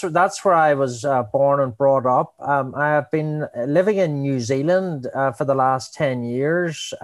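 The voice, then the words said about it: Northern Irish (Belfast) accent. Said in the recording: “I'm from Belfast, Northern Ireland, and I'm sure people can hear it from my accent. ... We can tell.”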